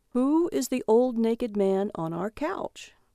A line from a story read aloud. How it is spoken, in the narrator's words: he said calmly